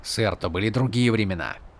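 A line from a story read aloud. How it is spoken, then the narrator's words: Muttering. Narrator (Russian): пробурчал Каладин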